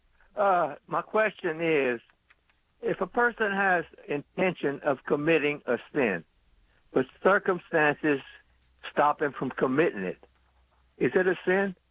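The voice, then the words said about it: Louisiana accent, Lafayette area. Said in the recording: “Do I hear Lafayette in your? Do I hear Lafayette or Crowley in your accent? ... Lafayette, built by Louisiana.”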